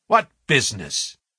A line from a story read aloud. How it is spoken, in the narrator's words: asked Sir Henry sharply